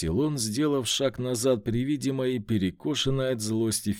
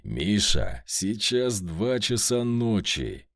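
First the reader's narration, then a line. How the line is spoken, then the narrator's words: Growled. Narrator (Russian): прорычал я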